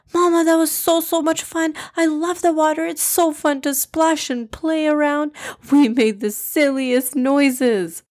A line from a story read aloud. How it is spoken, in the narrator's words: Junaid exclaimed